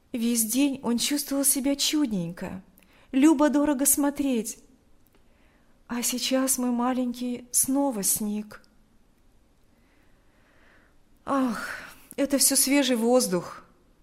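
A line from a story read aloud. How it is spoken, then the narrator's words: Sighing reply. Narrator (Russian): ответил Павел, вздохнув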